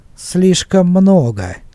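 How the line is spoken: Sarcastic smirk. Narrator (Russian): язвительно усмехнулся Шед

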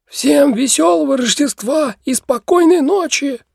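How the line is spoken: Hoarse shout. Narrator (Russian): сипло выкрикнул

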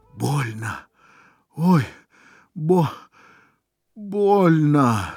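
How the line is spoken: Moaning in pain. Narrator (Russian): стонал раненый

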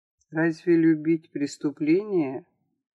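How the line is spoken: Quiet question. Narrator (Russian): тихо спросил Сэм

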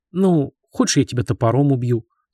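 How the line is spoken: Sorrowful sigh. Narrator (Russian): с горем вздохнул Терентий

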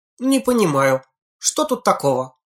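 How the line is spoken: Indignant. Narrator (Russian): возмущенно Синицына

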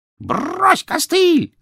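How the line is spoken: Parrot's shout. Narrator (Russian): закричал попугай

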